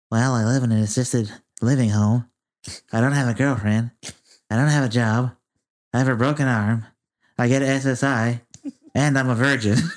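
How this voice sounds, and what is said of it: Imitates another person's voice. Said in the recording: “I'm gonna do his voice too.”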